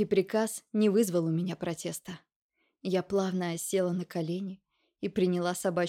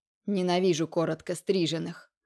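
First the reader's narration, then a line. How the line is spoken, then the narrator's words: Barked. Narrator (Russian): рявкнул он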